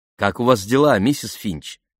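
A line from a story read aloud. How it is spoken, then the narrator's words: Plain. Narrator (Russian): спросила Памела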